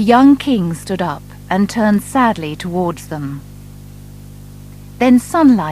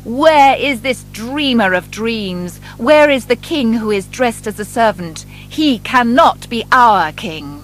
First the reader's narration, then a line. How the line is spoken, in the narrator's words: The government officers came into the church shouting